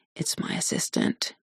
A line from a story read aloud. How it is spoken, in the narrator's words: she says, lowering her voice